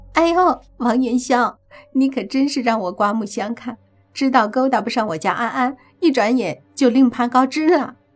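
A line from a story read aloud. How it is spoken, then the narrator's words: Smug loud laughter. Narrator (Chinese): 李科闻言得意的大笑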